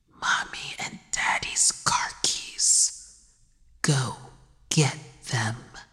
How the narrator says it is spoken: The child killer whispered

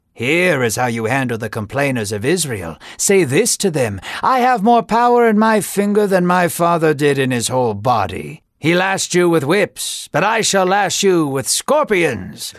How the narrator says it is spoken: Rehoboam laughed

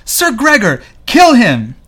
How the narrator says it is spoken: wrought with grief, screams

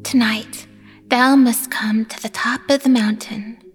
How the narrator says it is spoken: she whispered

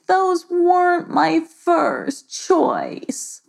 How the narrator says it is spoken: Monia groaned back

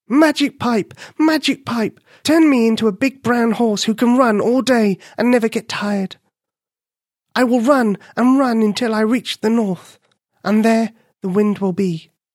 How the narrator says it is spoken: she cried

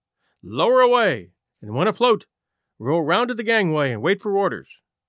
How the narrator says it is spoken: shouted to the boats being lowered

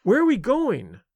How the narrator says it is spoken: she cried

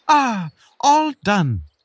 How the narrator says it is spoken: the beetle exclaimed

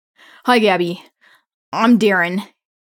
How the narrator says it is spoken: says sheepishly

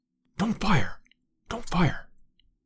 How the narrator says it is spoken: whispered Lord John

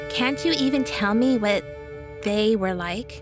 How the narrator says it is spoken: Simpson asked

